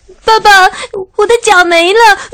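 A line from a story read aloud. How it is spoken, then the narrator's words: Crying. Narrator (Chinese): 他哭着说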